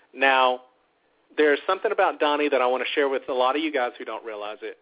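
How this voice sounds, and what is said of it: Mild Southern US accent. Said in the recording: “I am from the South, born and raised here. You can probably tell it in my voice. ... I've never had a serious deep twang, but I am from the South.”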